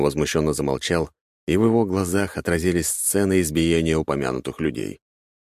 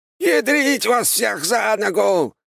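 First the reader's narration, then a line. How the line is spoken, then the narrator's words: Sudden shout. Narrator (Russian): внезапно крикнул Аполлон Генрихович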